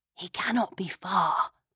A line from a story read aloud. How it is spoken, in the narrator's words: I whispered